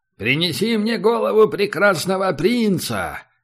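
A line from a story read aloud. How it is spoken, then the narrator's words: Thunderous command. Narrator (Russian): велел Оскар громовым голосом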